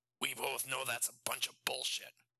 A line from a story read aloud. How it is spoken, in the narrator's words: Randy snapped